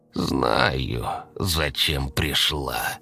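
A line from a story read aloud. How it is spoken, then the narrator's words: Hoarse croak. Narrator (Russian): хрипло прокаркала Анисия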